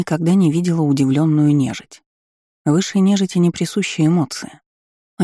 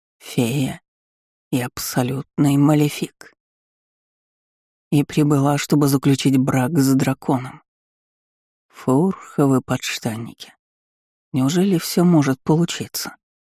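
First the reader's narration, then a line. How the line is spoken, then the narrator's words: Muttered. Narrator (Russian): Пробормотал Вальтер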